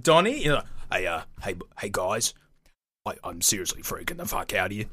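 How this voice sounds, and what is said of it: Imitates another person's voice. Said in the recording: “I think I can do a good Mike Nolan.”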